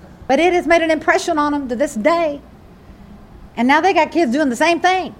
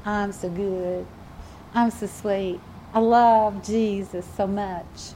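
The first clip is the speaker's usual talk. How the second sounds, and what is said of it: Put-on Southern accent. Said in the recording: “I get my southern accent going on here.”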